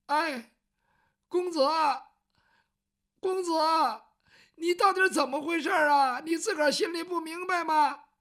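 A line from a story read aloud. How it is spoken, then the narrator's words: Crying child. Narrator (Chinese): 雨墨这个时候哭了，他毕竟是个孩子，没经过这个事儿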